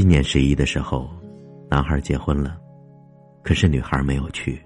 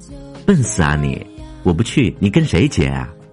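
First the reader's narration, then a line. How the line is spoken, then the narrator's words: Giggling, slightly haughty girl. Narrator (Chinese): 女孩扑哧的笑出声来，略带傲气的说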